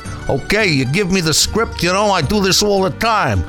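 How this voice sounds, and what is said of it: Italian-American mafia goon accent. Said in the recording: “an English voice with an Italian mafia accent? ... some goon from the mob like me”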